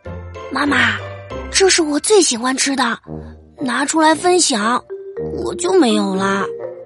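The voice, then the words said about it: Quiet, hushed child's voice. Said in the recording (Chinese): “小声说”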